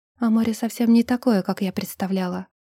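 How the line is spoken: Barely audible. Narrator (Russian): произнесла едва слышно

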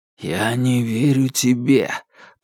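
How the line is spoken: Nauseated strained whisper. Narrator (Russian): прошептал отец Родригес, превозмогая тошноту

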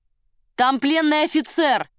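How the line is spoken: Shout after them. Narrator (Russian): крикнул им вслед волонтер

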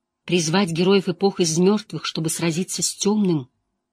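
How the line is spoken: Trembling voice. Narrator (Russian): Найниф произнесла дрожащим голосом

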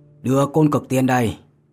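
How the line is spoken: Cold low voice. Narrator (Vietnamese): lạnh lùng hừ một tiếng, trầm giọng nói

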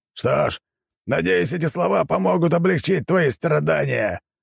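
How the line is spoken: Shouting. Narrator (Russian): крикнул

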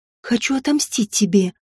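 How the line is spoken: Whisper against lips. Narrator (Russian): прошептала в его губы

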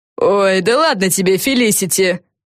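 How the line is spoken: Scoffing snort. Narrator (Russian): фыркнула Силия

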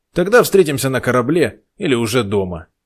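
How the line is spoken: Short, curt shout. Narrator (Russian): коротко выкрикнул Тодор, не желая затягивать разговор

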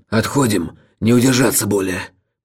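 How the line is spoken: Hoarse male rasp. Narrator (Russian): прохрипел он

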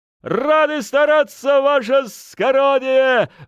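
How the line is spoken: Crowd barking in unison. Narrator (Russian): Вдруг оборвав свою песню, как один человек, рявкнул толпа полуэскадрона

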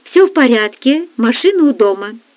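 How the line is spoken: Cheerful. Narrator (Russian): весело сказал он

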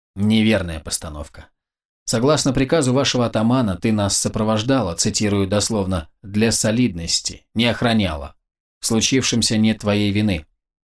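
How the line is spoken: Flat, expressionless, with pause. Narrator (Russian): ровным невыразительным тоном произнес юноша и, сделав паузу, договорил

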